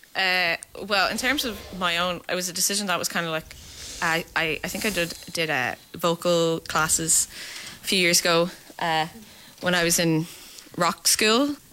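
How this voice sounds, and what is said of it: Irish accent. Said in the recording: “your Irish accents are so prominent when you sing”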